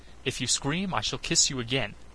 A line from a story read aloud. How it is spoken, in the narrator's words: said